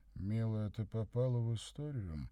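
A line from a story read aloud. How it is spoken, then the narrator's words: Sleepy mumble. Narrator (Russian): сонно пробормотал он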